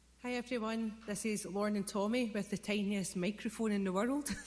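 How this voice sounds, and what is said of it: Scottish accent. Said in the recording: “there's 20 of them in Scotland ... enjoy the beautiful accent.”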